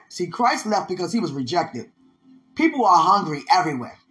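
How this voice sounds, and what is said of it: Speaking with a noticeable accent. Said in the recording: “I don't know where this accent coming from, but it's here.”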